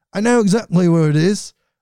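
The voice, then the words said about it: Put-on English accent. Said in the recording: “I'm just going to go into my English accent as I read his quotes here.”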